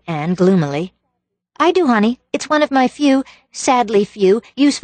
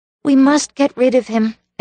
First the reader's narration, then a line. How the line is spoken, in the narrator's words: agreed Anne